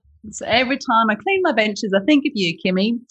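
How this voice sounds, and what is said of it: Northeast English accent. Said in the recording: “I'm originally from the northeast of England ... if you have an accent like this”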